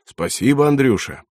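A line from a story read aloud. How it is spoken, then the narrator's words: Cheerful shout. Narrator (Russian): весело кричит рассыльному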